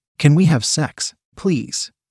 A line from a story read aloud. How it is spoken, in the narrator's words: He begged